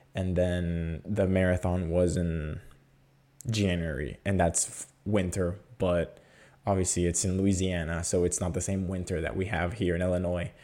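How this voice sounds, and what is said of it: Raspy, hoarse voice. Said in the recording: “as you can hear in my voice, my voice is a little bit raspy, and that's because last weekend my allergy starting acting up”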